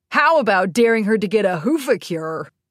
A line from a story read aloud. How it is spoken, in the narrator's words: suggested with a giggle